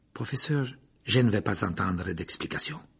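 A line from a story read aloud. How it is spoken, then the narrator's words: Curt. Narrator (French): dit sèchement Lupin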